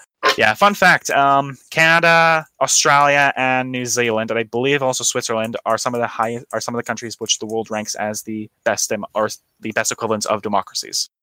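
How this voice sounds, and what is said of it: Australian-sounding accent. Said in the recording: “develop the fucking Australian accent there?”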